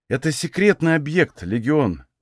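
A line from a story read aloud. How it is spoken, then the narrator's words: Confused sigh. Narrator (Russian): вздохнул я, запутавшись в мыслях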